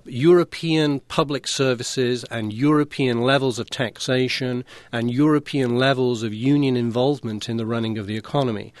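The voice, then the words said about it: British accent. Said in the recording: “I'm a Brit”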